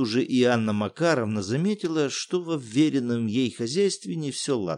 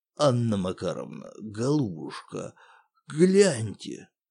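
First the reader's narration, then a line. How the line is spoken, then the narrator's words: Hoarse building manager. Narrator (Russian): Сиплым голосом произнес управдом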